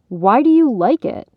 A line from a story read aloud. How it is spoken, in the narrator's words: Alden snapped back